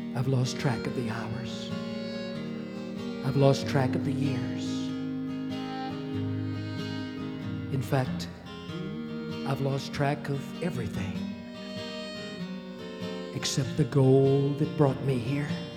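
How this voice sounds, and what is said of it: Whispering. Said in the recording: “I can barely talk. I'm whispering.”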